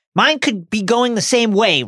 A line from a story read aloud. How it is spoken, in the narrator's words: Ron yells